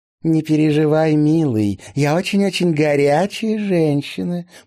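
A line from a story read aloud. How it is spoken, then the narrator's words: Cooing woman. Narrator (Russian): проворковала блондинка в голубом кокошнике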